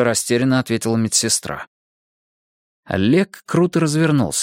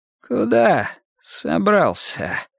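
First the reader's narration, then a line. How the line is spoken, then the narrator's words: Hoarse. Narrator (Russian): хрипло выговорил он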